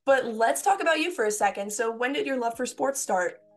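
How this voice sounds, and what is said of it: Sick, strained voice. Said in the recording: “excuse my voice. I'm still sick.”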